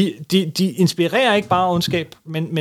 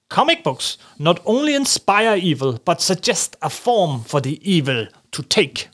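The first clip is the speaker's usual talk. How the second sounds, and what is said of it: Put-on German accent. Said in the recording (Danish): “hvorfor tror du, jeg siger det med tysk accent?”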